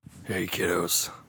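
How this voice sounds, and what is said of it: Deep gruff character voice. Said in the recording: “That was not a bad Joel just now. That was an accidental Joel. I was just going for a deep voice, and out pops Joel.”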